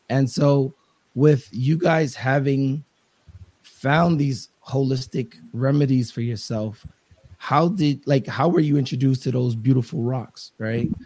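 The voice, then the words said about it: Slightly raspy voice. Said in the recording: “my voice is a little raspy... You sound like it.”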